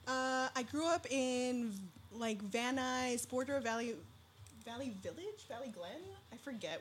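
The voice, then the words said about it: Valley girl accent. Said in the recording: “I'm a Valley girl. You can probably hear it in my voice. Sometimes I try to tone it down”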